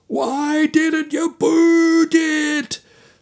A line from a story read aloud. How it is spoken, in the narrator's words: screamed the apoplectic Charlie Adams